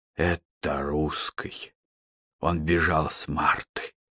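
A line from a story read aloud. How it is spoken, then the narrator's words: Muttering. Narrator (Russian): бормотал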